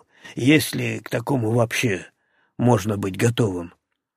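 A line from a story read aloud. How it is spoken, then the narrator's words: Grumbling. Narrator (Russian): проворчал Алексей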